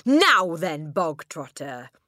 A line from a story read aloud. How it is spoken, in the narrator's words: the Trunchbull boomed